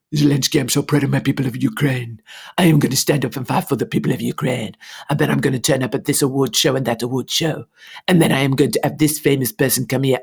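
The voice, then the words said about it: Impression of Zelensky, French-sounding accent. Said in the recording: “I don't know why we've gone into French. I'm doing an impression of Zelensky.”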